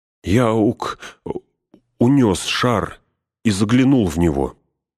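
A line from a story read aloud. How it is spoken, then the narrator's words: Stammering. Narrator (Russian): запинаясь, проговорил Пин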